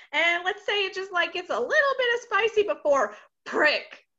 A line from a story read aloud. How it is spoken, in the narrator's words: she shouts down the bond